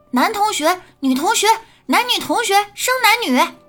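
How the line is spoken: Sudden mischievous shout. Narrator (Chinese): 一位调皮的同学突然叫道

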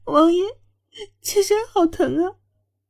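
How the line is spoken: Tearful complaint. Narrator (Chinese): 哭诉道

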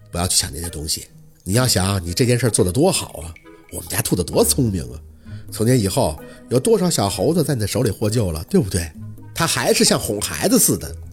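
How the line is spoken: Soft gentle voice. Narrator (Chinese): 陆佩的气息一沉，声音轻柔

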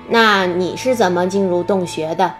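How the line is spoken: Plain question. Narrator (Chinese): 月亮脸问道

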